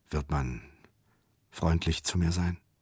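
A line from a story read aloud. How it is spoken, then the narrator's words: Quiet question. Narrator (German): fragte leise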